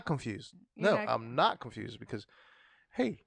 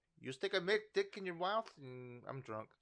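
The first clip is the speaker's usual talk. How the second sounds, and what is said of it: Bad imitation of another person's voice. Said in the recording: “in Eddie Murphy's voice ... That was a really bad impression.”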